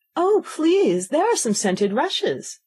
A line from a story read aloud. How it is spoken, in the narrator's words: Alice cried in a sudden transport of delight